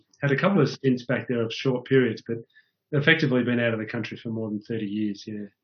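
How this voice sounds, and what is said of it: Australian accent. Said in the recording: “your accent is Australian ... it sounds great in an Australian accent”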